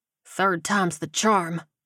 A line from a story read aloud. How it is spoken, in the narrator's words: he muttered